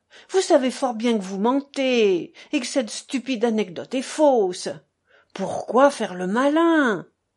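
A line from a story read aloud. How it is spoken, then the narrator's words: Trembling, barely contained voice. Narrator (French): proféra d'une voix tremblante Miousov, qui ne pouvait déjà plus se contenir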